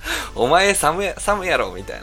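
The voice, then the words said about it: Fake Kansai dialect. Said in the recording (Japanese): “ちょっとエセ関西弁で”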